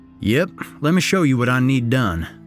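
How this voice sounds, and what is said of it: Broad Southern accent. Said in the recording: “a broad southern accent common to lifelong residents”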